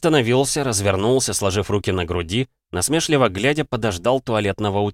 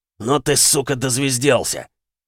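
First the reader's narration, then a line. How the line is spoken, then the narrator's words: Growl. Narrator (Russian): рыкнул голос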